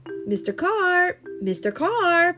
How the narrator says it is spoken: yelled

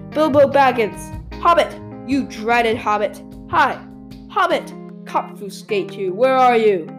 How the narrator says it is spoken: shouted and called

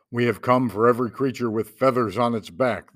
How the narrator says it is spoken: the terrible things thundered

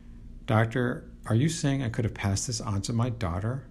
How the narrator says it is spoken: asked the patient's father in an almost apologetic tone

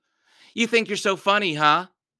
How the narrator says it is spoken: She shouted

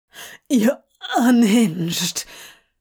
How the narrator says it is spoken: Crowley gasps

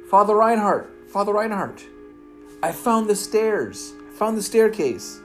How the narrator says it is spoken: Instinctively, Peter called out

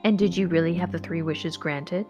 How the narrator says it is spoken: asked Mr

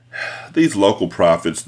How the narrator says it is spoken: the bishop sighed

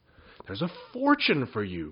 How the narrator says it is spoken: cried Jinx

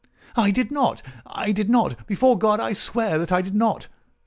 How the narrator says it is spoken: cried our wretched prisoner

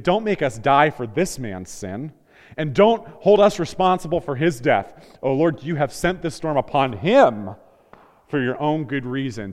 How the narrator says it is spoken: pleaded

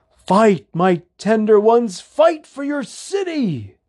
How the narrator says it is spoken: shouted down

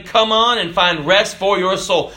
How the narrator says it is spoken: Shouting

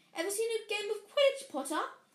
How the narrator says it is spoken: he asked excitedly

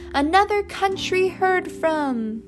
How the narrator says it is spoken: Francie shouted with the other kids

